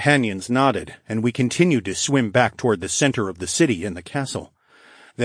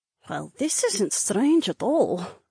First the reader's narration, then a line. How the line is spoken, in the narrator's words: Rebecca muttered